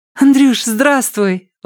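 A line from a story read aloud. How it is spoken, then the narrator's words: Little girl's exclamation. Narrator (Russian): воскликнула мелкая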